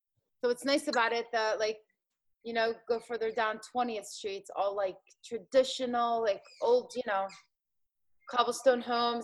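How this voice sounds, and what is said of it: Philadelphia accent. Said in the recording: “You have an accent... it sounds like you have a Philly accent... it's authentic. It's very authentic.”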